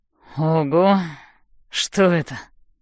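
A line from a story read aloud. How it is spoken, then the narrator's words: Creaky sleepy question. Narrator (Russian): спрашивает он скрипучим, заспанным голосом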